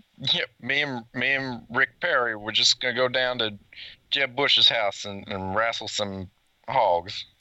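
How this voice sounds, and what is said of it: Put-on American cowboy accent. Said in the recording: “can you do a more American accent? ... Can you do the rest of the podcast with an American accent? ... It's the cowboy.”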